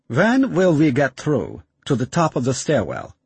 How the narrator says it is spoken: Conrad asks

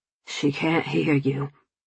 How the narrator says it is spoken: he whispered

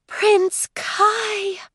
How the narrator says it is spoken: she said, her voice taking on the unexpected tinge of a sigh

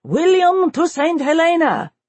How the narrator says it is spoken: shouting his war cry

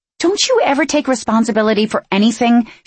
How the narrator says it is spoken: She asked, nerves quickly replaced with annoyance

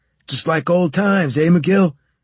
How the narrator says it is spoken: he shouted

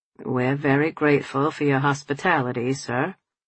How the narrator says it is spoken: Tom replied stiffly

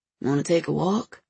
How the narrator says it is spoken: he asked, his voice a low rumble

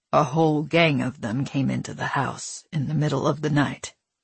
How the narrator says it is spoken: he said, his voice low and struggling

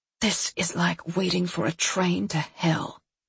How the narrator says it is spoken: she whispered at some point, not to me directly, but up at the chapel ceiling

